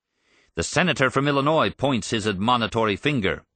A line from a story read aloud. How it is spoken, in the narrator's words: Russell shouted